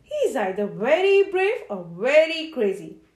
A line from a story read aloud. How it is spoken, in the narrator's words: growled a lion